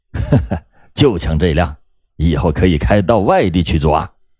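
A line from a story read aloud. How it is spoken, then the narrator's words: Cold laughing. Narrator (Chinese): 冯哲谋冷冷的笑着说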